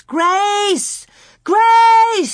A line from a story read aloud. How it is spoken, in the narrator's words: she screamed